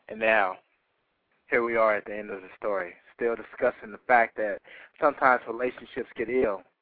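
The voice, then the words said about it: Deliberately deep poetry-reading voice. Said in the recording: “Let me get my deep voice on.”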